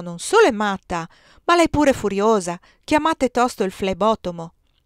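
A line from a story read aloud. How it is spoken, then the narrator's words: Exclaiming. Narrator (Italian): esclamò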